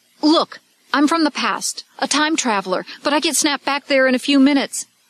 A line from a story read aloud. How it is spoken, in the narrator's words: He blurted out